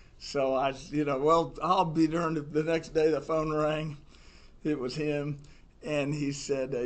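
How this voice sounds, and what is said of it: Usual voice. Nothing is said of it.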